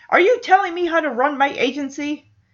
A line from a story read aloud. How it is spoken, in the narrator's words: Hoover shouts back